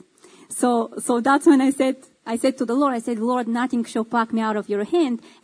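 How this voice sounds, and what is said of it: Speaks with a noticeable accent. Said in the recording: “You got a pretty cool accent, too.”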